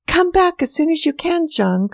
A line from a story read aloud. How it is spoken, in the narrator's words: called